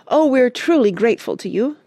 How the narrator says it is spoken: cried Joe

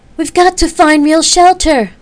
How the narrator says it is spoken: Effany yelled

